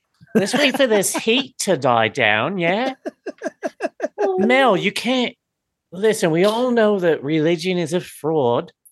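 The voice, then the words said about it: Put-on Australian accent, sounds New Zealand. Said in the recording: “your Australian accent sounds more New Zealand to me”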